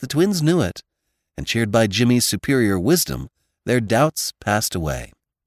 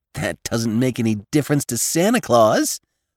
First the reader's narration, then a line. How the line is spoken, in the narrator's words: scoffed Jimmy